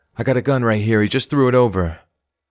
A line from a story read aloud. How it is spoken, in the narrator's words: a civilian appears to yell from his window off camera